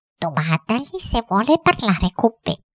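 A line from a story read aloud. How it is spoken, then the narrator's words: Repeated question. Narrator (Italian): Il cuoco ripeté la domanda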